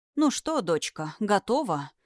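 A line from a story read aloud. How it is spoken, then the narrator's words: Very quiet. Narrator (Russian): Ульрих сказал это очень тихо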